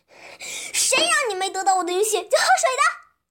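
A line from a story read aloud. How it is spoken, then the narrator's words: Furious shouting. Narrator (Chinese): 蝎子一下子火冒三丈，生气的对骆驼喊道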